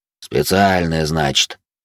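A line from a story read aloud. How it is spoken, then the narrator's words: Grumbling. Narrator (Russian): проворчал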